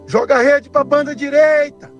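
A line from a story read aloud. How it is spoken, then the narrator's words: Shouting. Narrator (Portuguese): Jesus grita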